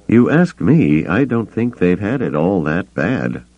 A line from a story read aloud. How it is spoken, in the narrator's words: Han muttered to Chewbacca